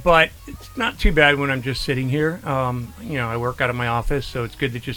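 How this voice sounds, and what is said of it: Tired-sounding voice. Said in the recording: “I can hear the tiredness in my voice.”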